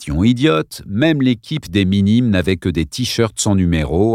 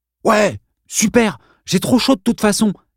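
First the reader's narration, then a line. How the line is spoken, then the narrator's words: Exclaimed. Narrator (French): s'exclama Bob McCone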